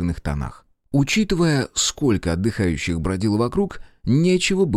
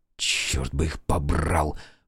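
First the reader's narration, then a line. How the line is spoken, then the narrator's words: Hissed under breath. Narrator (Russian): прошипел я себе под нос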